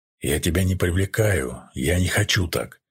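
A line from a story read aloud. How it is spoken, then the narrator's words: Angry man. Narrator (Russian): рассерженно сказал мужчина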